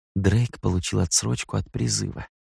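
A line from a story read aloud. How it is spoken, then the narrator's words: Whispered. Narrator (Russian): шепотом произнес Эндрю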